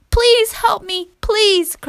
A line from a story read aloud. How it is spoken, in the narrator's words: cried the girl